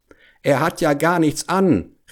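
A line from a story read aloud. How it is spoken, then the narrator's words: Whole crowd calling out. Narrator (German): rief endlich das ganze Volk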